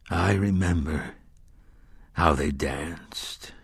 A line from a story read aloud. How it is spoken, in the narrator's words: the gunslinger said softly